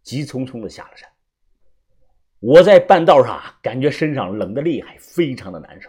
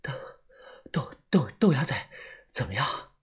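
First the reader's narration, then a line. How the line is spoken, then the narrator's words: Breathless question. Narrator (Chinese): 我 喘着气问他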